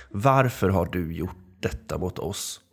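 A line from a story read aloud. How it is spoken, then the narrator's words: Rough, harsh voice. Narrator (Swedish): frågade Bruno med en sträv röst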